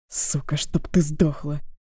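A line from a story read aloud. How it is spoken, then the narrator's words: Quiet angry curse. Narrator (Russian): Негромко выругался мужчина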